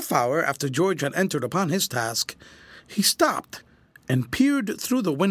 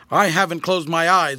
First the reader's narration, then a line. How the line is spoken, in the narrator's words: retorted Grant sharply